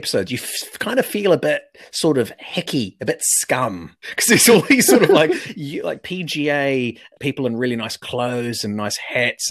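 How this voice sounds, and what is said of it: New Zealand accent. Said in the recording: “just a dude from New Zealand ... you hear our accent ... This isn't Aussie. This is some weird thing.”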